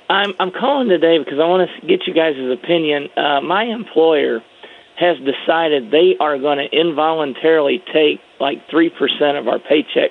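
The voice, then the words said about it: Slightly hoarse voice. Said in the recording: “I sound a little hoarse.”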